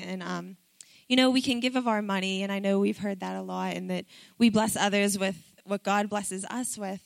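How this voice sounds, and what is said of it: Strained, fading voice. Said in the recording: “I'm losing my voice, so if it sounds bad”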